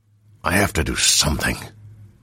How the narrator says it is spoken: Roshar hissed

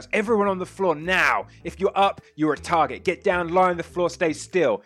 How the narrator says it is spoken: The police commissioner kicks you, or will go to drop you to the floor, Samson, and he just shouts

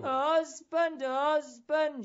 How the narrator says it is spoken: she cried out to me

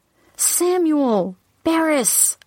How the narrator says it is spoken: I cried out

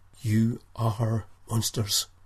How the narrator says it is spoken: whispered Nikolai

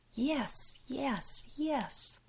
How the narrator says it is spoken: Jane screaming

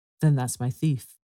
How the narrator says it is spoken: replied D'Artagnan

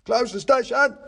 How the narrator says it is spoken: I heard him shout into his walkie-talkie

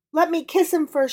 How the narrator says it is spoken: pleaded

